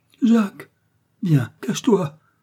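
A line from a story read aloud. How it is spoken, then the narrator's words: Exclaimed. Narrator (French): s'écrie Marthe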